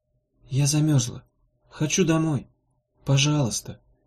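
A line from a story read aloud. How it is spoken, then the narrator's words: Barely audible plea. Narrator (Russian): попросила Ирка едва слышно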